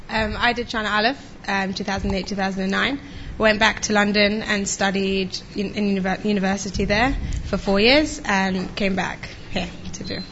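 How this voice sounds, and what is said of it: London English accent. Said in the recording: “there's the accent that we were looking for”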